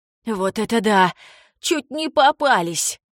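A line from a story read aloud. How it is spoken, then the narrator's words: Relieved exhale. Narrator (Russian): С облегчением выдохнул Билли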